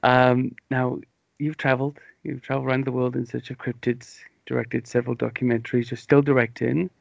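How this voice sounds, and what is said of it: Mumbly English accent, a bit slow. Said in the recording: “I might be a bit sleepy and a bit slow for you ... my stumbly mumbly English accent”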